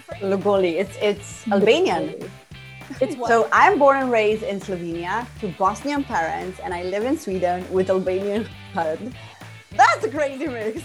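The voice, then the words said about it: Hybrid mixed foreign accent. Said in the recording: “your accent isn't one or the other. It's a little bit of a mix of, it's a hybrid. ... My multitasking accent.”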